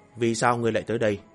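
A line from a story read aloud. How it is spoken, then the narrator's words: Cold question. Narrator (Vietnamese): Ô Mộng Lan lạnh lùng hỏi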